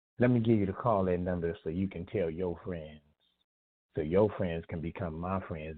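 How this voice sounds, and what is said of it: Slightly raspy voice. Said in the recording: “my voice is a little raspy right now. I was hollering, I was screaming”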